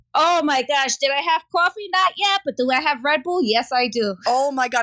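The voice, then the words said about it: Bronx New York accent. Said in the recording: “Your Bronx roots are coming out here... supposedly my accent has lessened”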